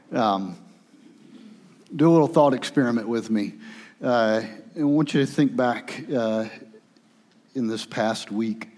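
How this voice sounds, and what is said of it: Strained, sore-throated monotone voice. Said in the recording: “I have what I think might be strep throat ... I don't know if my voice is going to make it all the way through this, so if I talk really monotone, more than normal”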